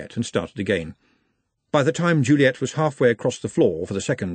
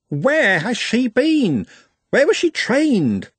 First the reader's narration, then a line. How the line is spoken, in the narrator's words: He, or conceivably she, squeaked